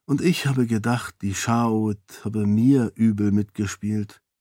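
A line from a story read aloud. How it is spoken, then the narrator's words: Whisper. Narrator (German): flüsterte Raoden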